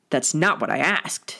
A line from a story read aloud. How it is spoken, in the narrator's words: Sirius growled